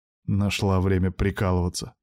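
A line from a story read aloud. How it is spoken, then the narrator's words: Grumbled. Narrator (Russian): буркнул я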